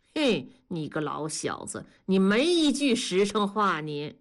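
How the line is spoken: Laughing. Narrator (Chinese): 同志笑着 说

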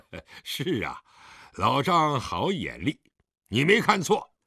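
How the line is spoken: Smiling. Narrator (Chinese): 狄仁杰微笑地，点头道

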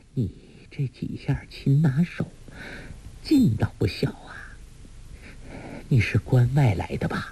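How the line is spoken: Breathless woman. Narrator (Chinese): 那女人喘着气向梁子翁说

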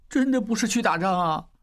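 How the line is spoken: Low tearful voice. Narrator (Chinese): 小栓带着哭腔低声说

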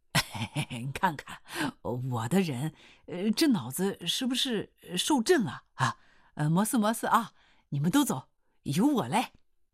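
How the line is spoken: Grinning. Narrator (Chinese): 刘洪兵呲啦一笑说

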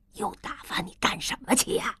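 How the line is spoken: Quiet. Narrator (Chinese): 江雪英小声说

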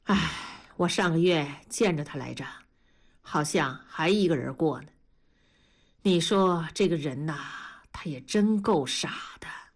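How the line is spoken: Grave sigh. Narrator (Chinese): 大庄沉下了脸，叹了口气说

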